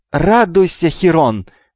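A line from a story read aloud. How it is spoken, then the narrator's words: Loud yell. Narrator (Russian): во все горло завопил Гермий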